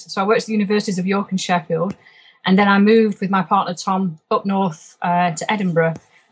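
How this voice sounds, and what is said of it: Lancashire accent with Yorkshire tinge. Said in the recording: “my Lancashire accent has been tinged by some Yorkshire overtones”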